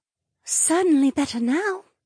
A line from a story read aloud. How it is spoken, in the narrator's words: she breathed